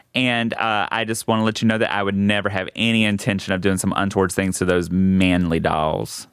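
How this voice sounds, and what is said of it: Speaks with an accent. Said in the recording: “my accent can sometimes... change things around”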